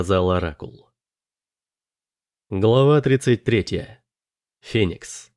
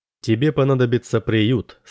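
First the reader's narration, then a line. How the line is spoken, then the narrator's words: Plain. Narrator (Russian): сказал Оракул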